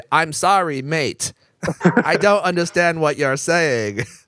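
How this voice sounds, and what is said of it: Mock Australian Siri accent. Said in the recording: “switch her accent to something else ... whatever Australian and British”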